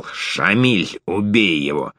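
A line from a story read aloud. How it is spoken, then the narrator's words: Hiss. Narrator (Russian): главарь прошипел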